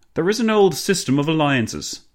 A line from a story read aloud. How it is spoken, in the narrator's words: Clemenceau boomed